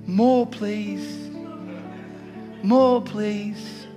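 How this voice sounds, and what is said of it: Oliver Twist-style English accent. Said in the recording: “Oliver Twist? ... The opening scene. ... I even gave the accent”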